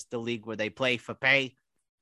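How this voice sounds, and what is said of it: Mike Francesa impression. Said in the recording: “as Mike Francesa says ... I'm getting better at that impression.”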